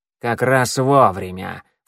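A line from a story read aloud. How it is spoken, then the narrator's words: Snort. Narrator (Russian): фыркнула она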